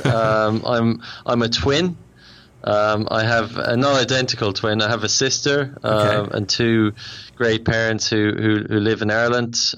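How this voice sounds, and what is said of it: Irish accent. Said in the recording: “I'm Irish, if you can't tell by the accent.”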